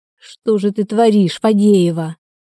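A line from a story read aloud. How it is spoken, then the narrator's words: Moaning. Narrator (Russian): простонала Ольга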